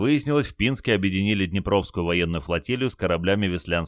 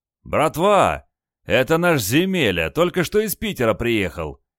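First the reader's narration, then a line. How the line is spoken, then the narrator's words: Shout. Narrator (Russian): крикнул главстаршина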